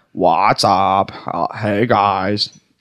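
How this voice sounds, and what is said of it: Comic impression of a brother. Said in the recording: “he does an impression of his brother, Lee. It's very funny.”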